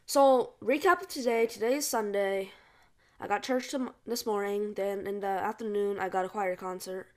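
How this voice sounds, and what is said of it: Slightly off, just-woken voice. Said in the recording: “my voice is a bit off. I just woke up.”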